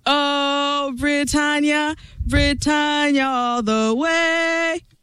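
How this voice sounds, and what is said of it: Weak put-on British accent, sung. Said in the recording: “that's extremely limited. The only thing that's more limited is her British accent.”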